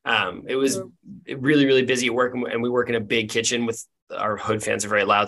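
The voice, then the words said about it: Hoarse, strained, blown-out voice. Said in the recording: “My voice is shot from the week that I had... I was yelling all week... I fully blew my voice out... going to sound like they smoke a pack a day”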